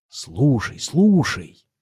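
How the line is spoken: Whispering. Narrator (Russian): зашептал он

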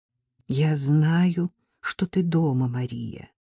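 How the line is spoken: Whisper. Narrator (Russian): прошептала Селли Поттер

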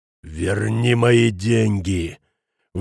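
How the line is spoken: Angry hiss. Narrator (Russian): прошипел Шмидт

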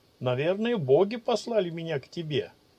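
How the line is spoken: Laughing. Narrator (Russian): рассмеялся Ичиро

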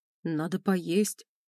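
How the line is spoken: Confused voice. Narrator (Russian): как-то растерянно звучал его голос

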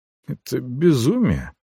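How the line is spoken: Muttering. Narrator (Russian): пробормотал я

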